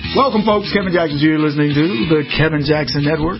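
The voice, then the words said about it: Exaggerated smooth radio announcer voice. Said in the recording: “Using my radio voice today. Why not? It's sexy.”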